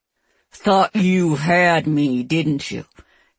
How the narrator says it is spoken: Keegan says through his teeth

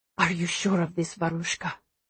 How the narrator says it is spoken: He whispers

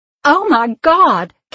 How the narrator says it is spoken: Caroline screamed

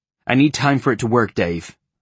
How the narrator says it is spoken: I said

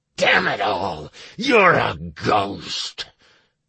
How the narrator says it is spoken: the embodied orc spat

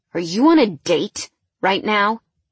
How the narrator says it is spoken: he said through clenched teeth

